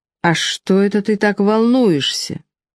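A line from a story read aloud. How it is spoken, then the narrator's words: Soft question. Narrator (Russian): мягко поинтересовался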